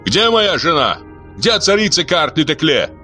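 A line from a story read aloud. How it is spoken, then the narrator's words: Menacing shout. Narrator (Russian): грозно кричал Луар Саб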